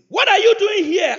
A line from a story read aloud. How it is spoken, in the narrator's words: I yelled